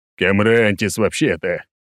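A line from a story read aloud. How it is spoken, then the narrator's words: Laugh, then heavy sigh. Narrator (Russian): рассмеялся я, после чего тяжело вздохнул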